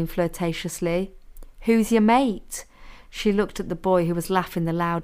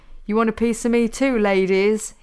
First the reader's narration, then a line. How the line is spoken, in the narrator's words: He laughed